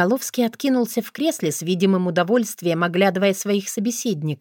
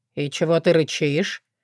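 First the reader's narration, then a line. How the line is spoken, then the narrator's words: Lazy question. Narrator (Russian): лениво осведомился актер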